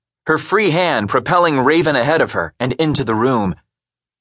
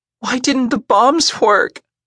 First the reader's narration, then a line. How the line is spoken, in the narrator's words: Raven whimpered